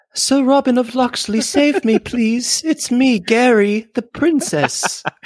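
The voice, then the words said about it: Cartoon damsel-in-distress impression. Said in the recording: “you sound like the worst like damsel in distress of like an old cartoon movie ... I like you doing an impression of me better”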